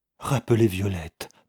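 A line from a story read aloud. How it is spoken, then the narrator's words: Wife's anguished stammer. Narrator (French): balbutia aussitôt sa femme avec angoisse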